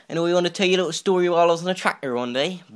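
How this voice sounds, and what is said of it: Bristol English accent. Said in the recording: “I used to live in Bristol, you could tell by my accent.”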